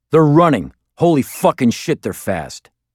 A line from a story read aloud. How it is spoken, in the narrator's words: Then I heard him shout